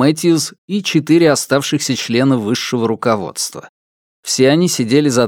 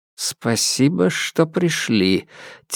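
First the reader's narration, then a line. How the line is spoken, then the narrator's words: Quiet. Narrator (Russian): тихо сказал Регус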